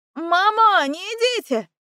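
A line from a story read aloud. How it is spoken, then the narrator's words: Bratty yell. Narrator (Russian): заорала вредная Васька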